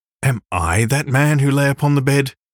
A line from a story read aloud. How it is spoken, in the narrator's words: he cried